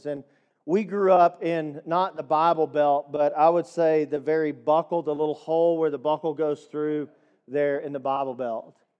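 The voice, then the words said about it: Slight East Texas accent. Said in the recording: “We're from Deep East Texas. I don't know if you could tell by the accent. It's very slight. But I'm just a redneck from East Texas.”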